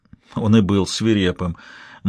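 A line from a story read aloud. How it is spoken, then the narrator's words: Grim smirk. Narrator (Russian): мрачно ухмыльнулся Залески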